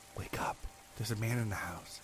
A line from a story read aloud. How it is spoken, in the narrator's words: my sister woke me up whispering